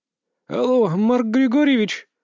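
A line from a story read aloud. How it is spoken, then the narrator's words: Hoarse, sleepy female voice. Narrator (Russian): послышался хрипловатый, слегка заспанный женский голос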